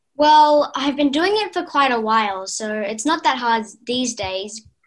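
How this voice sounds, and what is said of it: Australian accent. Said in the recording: “you have an Australian accent”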